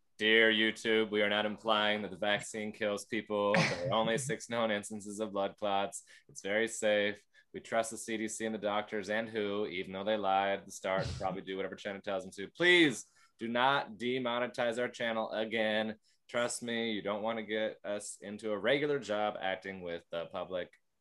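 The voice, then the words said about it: Robot voice, dropped halfway. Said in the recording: “I forgot the robot voice ... you really lost the accent halfway through”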